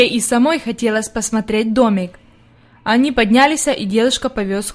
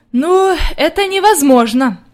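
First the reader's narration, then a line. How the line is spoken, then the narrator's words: Sighing grandmother. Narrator (Russian): вздохнула бабушка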